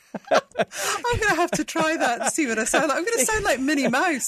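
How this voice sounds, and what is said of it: Anglicized Scottish accent. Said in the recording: “You sound more English... It's a very sort of anglicized Scottish accent. So very, very clear.”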